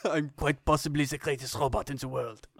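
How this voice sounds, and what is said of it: Kenneth Branagh's Poirot voice. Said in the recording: “Kenneth Branagh doing the Poirot voice.”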